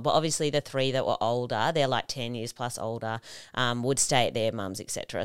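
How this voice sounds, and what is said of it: Strong Australian accent. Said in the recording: “I guess that's mostly where the accent comes from because I speak a bit more Aussie than most people.”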